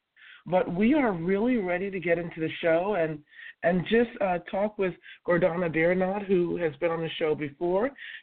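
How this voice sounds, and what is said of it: Voice affected by a cold. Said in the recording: “please excuse my voice. Unfortunately, in the summer, I do have a cold.”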